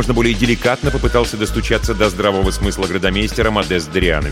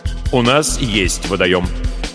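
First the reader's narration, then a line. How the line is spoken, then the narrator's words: Firm, commanding declaration. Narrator (Russian): непререкаемым тоном заявил градомейстер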